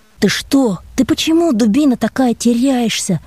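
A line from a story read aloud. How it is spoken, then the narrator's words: Almost affectionate. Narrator (Russian): сказал я почти ласково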